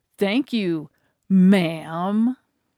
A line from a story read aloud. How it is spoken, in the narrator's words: his voice booms